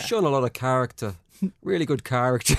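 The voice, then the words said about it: Put-on generic Irish accent. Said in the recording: “Your generic Irish accent ... your terrible Brendan Rodgers alter ego”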